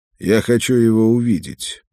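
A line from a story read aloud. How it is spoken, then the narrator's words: Calm. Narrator (Russian): Я спокойно произнес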